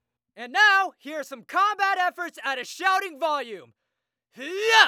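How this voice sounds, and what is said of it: Usual voice. Nothing is said of it.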